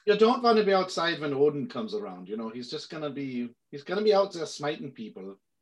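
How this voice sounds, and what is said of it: Put-on half Norwegian, half German accent. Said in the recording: “It's like halfway Norwegian and German”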